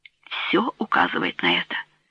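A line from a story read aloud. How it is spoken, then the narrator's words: Whispered. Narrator (Russian): прошептал Рене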